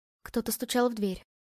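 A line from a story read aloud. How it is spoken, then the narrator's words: Trembling voice. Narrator (Russian): дрогнувшим голосом ответила ему Ева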